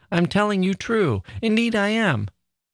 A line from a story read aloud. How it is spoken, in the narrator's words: sobbed out my child